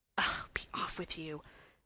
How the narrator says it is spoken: said the boy in an angry whisper

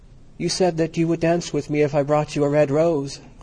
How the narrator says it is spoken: cried

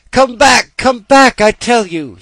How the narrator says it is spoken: he cried

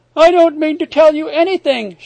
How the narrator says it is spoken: she cried

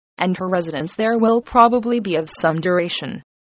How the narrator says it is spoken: said her father dryly

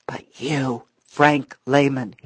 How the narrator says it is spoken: whispered passionately

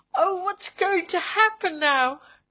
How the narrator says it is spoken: she cried

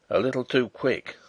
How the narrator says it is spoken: said he in his grumbling tone

